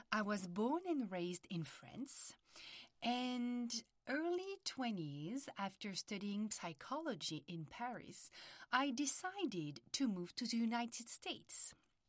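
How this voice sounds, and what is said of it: French accent. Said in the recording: “as you can hear, I have a French accent.”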